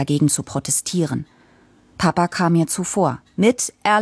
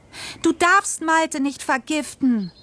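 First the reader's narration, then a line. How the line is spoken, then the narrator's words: Shouting. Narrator (German): schrie ich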